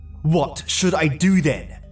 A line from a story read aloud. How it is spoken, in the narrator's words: I spat